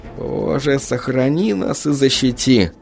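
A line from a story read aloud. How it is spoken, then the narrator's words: Muttering. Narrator (Russian): пробормотал Микки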